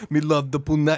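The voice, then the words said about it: Put-on reggae accent. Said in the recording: “He does like a reggae accent, too.”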